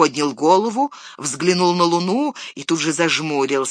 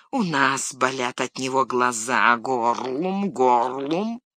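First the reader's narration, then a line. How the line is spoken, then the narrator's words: Hissing ever louder. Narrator (Russian): Горлум шипел все громче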